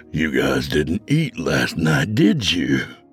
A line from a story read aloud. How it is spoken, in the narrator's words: Frank growled at them